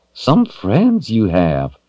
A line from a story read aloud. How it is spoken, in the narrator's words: the dragon grumbled